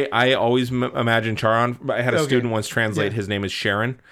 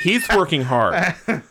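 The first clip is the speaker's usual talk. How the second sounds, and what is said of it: Entitled Karen-type woman voice. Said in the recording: “I'm putting on my Charon voice... Charon is Karen's sister”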